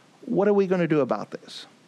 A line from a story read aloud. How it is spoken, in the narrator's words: They murmured against him